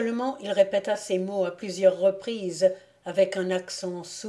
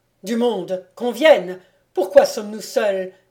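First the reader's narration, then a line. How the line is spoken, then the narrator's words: Exclaimed. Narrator (French): s'écria-t-il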